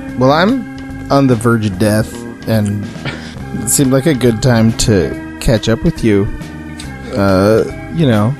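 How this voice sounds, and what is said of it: Hoarse, croaky sick voice. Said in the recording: “my voice sounds like a frog took a shit in my throat ... one of us should sound like we are of The Walking Dead”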